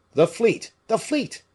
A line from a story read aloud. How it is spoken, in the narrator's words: cried a soldier, who recognized Aramis